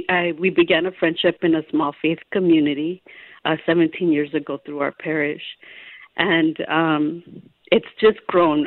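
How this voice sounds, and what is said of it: Slightly shaky, emotional voice. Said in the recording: “my voice is a little shaky”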